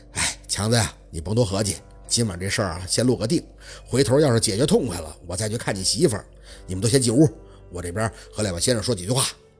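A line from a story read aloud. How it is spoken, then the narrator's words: Raspy voice, sighing. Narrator (Chinese): 雷叔扯着烟嗓，忽然回了一句，嘴里连带着还叹出口气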